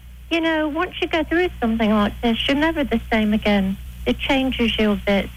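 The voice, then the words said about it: English-sounding accent. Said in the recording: “using the English accent”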